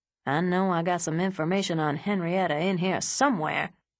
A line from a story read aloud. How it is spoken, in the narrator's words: he mumbled from under the mattress